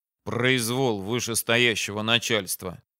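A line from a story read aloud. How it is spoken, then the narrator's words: Displeased grumble. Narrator (Russian): недовольно пробурчал Яким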